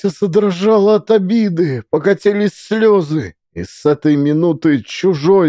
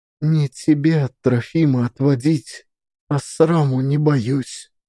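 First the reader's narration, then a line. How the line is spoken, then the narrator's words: Quiet. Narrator (Russian): тихо сказала Настя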